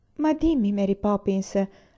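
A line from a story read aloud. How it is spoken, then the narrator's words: Pleading. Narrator (Italian): la supplicò Jane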